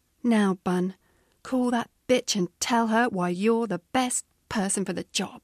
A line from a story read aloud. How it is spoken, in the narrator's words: said firmly